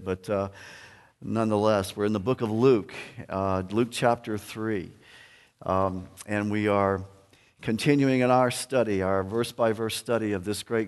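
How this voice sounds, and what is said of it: Slightly sick-sounding voice. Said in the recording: “apologize for my voice. I caught a cold this week ... it does affect my voice a little bit”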